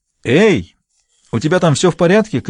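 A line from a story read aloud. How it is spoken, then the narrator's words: Shouted. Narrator (Russian): крикнула Энит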